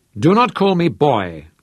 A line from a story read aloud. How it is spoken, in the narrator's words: Manny said hotly